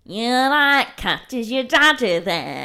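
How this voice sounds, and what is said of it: Put-on Manchester accent. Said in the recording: “I can do a Manchester accent.”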